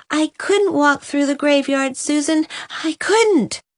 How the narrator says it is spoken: gasped Nan

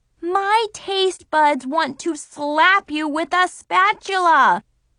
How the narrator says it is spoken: I yelled at her

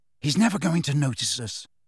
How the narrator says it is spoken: he whispered

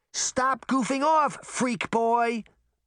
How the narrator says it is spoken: Sabrina shouted

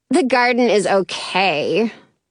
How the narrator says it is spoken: Penny scoffs

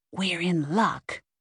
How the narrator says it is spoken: Ida whispered

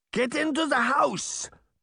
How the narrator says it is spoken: Baba Yaga shouted

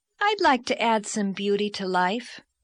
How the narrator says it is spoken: said Anne dreamily

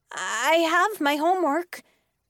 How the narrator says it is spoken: said, my voice shaking

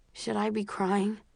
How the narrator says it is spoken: I ask, my voice muffled by his shirt

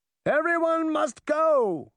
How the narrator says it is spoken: the wicked queen shouted

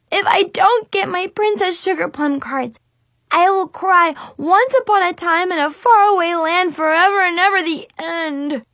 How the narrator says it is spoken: she whimpered

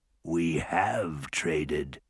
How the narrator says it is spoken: the courting said with a sneer

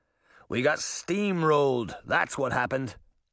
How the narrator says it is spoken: Little John grumbled

